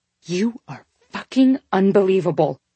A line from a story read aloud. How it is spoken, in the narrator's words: she growled through clenched teeth